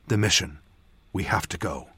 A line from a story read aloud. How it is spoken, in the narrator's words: I whispered